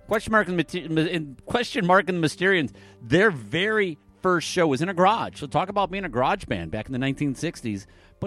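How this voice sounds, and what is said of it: Michigan regional American accent. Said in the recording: “Up in Michigan, yeah, that's where I'm from. That's where this weird accent comes from. It's not like a weird Canadian accent or a weird Ohio accent”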